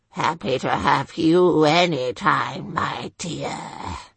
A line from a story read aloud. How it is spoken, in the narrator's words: Sir Rollo growled